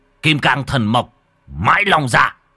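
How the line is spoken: Shouted incantation. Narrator (Vietnamese): Nhà Tam nhà Tứ quát

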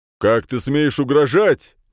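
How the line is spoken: Guard shouting. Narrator (Russian): крикнул стражник

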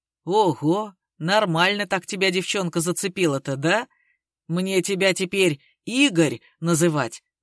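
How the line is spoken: Hoarse guffaw, syllable by syllable. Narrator (Russian): заржал сиплый, проговорив его имя по слогам

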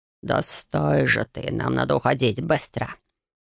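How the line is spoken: Vicious growl. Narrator (Russian): Злобно прорычал он

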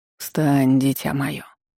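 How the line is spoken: Gentle man's voice. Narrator (Russian): мягко обратился мужчина

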